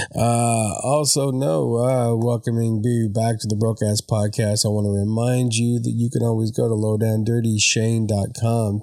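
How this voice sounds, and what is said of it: Voice sounds sick, not fully recovered. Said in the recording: “You can kind of hear it in my voice. I am not 100% just yet, but I did have the Rona.”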